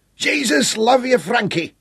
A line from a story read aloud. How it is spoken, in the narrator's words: he bellowed back, his great voice easily transcending the wind